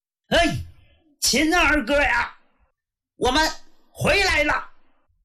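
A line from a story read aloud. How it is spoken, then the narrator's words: Loud shout. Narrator (Chinese): 齐彪大喊一声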